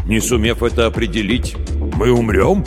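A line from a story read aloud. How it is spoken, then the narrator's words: Skeptical snort. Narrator (Russian): Малк хмыкнул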